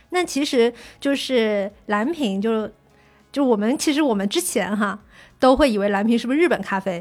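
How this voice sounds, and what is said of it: Southern Chinese Fujian accent. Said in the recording (Chinese): “口音也出现了，啊、这南方人、福建人就是暴露啊”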